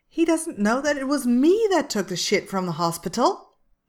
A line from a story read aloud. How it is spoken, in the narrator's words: the first man scoffs, sounding surprisingly immature